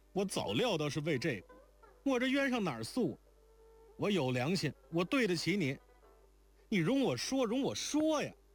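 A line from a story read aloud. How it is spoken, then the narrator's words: Aggrieved, stamping feet. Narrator (Chinese): 惊环听了正触着自己心病叫不出来的撞天冤屈，便自顿足道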